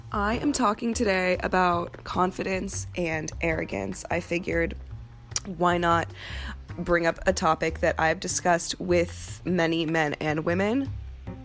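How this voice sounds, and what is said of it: Worn-out, rough-sounding voice. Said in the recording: “As you can tell from my voice, ... I am feeling it.”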